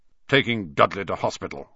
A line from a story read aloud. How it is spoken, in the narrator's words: growled Uncle Vernon